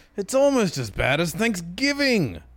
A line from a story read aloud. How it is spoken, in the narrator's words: he yelled